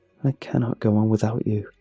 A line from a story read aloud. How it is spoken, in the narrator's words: Her voice is calm when she says